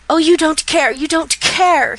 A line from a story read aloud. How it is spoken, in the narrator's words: he cried in bitter reproach